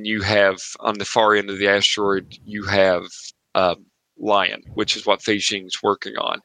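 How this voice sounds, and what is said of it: Appalachian accent. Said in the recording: “lying, lying, L-I-O-N, sorry, the Appalachian accent.”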